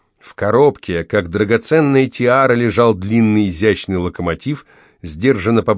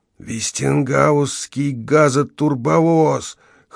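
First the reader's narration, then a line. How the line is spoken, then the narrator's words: Hoarse awed whisper. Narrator (Russian): хрипло прошептал Эрл в благоговении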